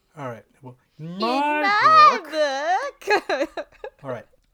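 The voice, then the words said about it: Exaggerated weird character voice. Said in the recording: “could do a weirder voice than that ... we did a dual level voice”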